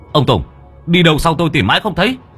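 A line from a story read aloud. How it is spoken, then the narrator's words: Shout. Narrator (Vietnamese): Có tiếng của Mo Sùng quát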